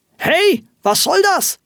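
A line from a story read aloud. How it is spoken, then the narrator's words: Astonished angry shout. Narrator (German): rief ein erstaunter Rufus Hornox erzürnt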